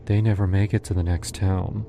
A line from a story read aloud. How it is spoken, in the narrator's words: she said, almost sadly